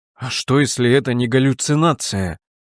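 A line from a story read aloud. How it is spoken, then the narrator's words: Horrified mutter. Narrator (Russian): в ужасе пробормотал Герберт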